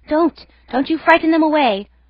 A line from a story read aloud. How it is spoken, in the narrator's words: cried someone on deck disconsolately